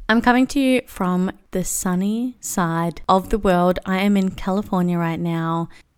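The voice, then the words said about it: Strong Australian accent. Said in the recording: “I hate when I sound so Australian ... I get very insecure about it when I feel like I'm sounding very ochre”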